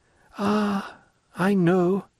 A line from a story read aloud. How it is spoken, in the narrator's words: said she, lowering her voice